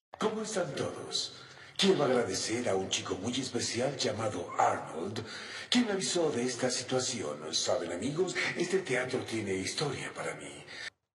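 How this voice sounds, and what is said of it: Old wise man voice. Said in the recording (Spanish): “es la misma voz es exactamente esa misma voz de viejo sabio... tiene voz de viejo sabio”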